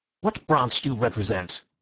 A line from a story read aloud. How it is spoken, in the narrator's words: he asked sharply